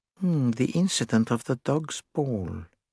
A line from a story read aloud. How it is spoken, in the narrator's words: murmured Poirot under his breath